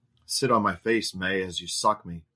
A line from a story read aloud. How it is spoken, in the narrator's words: he instructed May